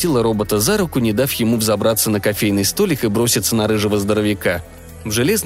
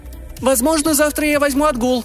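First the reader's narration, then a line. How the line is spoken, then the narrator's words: Woman calling after someone. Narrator (Russian): крикнула ему вслед женщина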